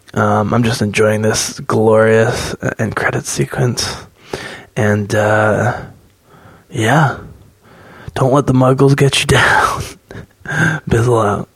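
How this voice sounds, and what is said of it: Whispering. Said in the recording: “So it seems like I'm whispering a little bit. It's because I am.”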